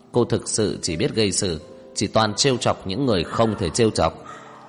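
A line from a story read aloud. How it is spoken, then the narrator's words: Cold, deliberate words. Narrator (Vietnamese): Tưởng Vĩ Quốc lạnh lùng từng chữ nói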